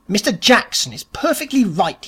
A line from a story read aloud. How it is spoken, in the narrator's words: he snapped